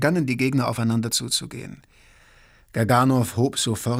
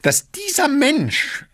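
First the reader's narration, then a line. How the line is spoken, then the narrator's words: Dry-throated croak. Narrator (German): krächzte Gaganow, plötzlich war seine Kehle trocken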